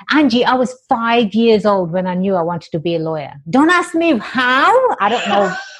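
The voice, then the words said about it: English accent. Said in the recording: “I have an exotic accent. I was born and raised in England.”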